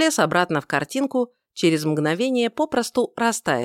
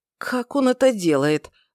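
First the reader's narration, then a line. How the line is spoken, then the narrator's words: Tired exhale. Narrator (Russian): выдохнул уставший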